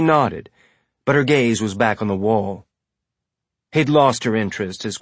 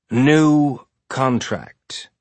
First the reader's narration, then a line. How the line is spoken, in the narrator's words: he said slowly